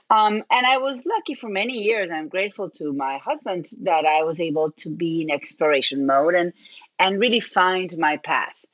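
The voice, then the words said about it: Argentinian accent in English. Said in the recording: “I'm originally from Argentina. That's where my accent is from.”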